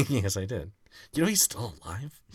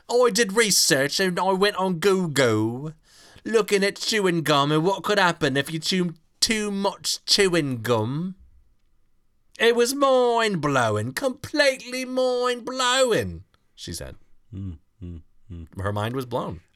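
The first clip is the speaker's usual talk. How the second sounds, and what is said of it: Deliberately bad put-on Cockney accent. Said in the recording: “I'm gonna do this in my worst Cockney accent ... the Dick Van Dyke school of dialects”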